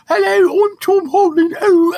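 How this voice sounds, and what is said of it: Imitation with heavy British accent. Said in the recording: “that has too much of a British accent. You have to just make it just be a high voice.”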